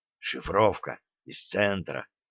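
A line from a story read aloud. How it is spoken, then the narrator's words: Low, hushed report. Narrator (Russian): вполголоса сообщил начальник связи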